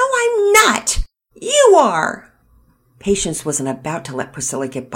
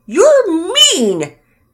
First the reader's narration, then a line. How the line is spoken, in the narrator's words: Priscilla shouted back